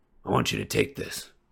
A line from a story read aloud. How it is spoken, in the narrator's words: he said quietly